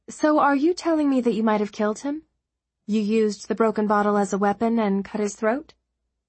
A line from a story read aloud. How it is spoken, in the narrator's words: Her voice was flat, toneless